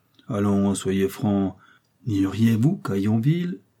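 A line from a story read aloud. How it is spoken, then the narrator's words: Young man stammering. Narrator (French): le jeune homme balbutia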